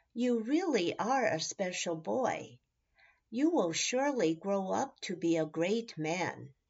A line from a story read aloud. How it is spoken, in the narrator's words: his dad chuckled and said